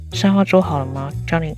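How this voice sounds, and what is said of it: Speaking quietly, in a hushed voice. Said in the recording (Chinese): “小声的跟同事说”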